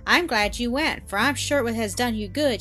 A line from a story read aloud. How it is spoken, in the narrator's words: added, merrily